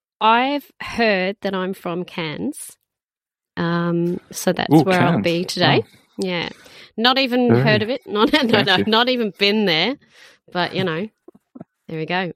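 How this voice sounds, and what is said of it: Put-on Australian accent. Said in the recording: “I'm going to go into my Australian accent now... an Aussie right now”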